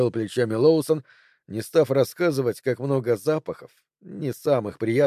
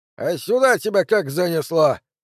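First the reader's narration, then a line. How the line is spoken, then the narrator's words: Old man's knowing hmph. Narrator (Russian): седобородый мужчина с умным видом хмыкнул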